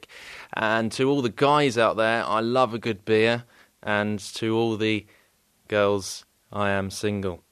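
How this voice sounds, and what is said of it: English accent. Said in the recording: “I do have an English accent and it is fantastic”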